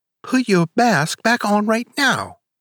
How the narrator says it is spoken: she cried

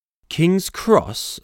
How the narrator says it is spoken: snorted the engine

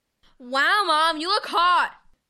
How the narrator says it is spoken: Levi shouted

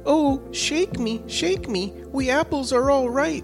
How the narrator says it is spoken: the apple tree, which cried

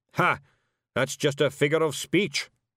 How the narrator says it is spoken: snapped Zack Zack

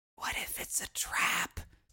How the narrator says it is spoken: Juniper whispered

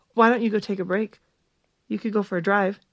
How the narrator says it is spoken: she said quickly

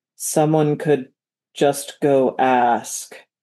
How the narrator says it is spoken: rumbled Colum the Eighth

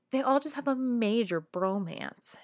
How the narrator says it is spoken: argued bitterly

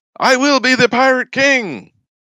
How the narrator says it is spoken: Luffy shouts

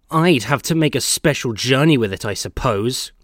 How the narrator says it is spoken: grumbled Percy

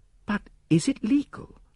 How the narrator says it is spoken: I gasped

